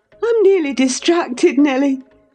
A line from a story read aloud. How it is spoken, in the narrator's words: she exclaimed